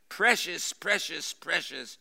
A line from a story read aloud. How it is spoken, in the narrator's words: Gollum cried